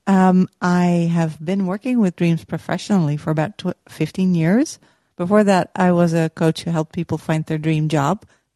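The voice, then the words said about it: Dutch accent. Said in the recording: “I'm from the Netherlands. You might hear it from my accent.”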